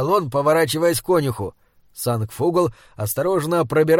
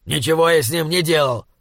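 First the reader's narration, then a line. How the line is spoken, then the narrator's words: Indignant snap. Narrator (Russian): Возмущенно огрызнулся он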